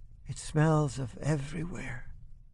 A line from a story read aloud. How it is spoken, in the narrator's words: she whispers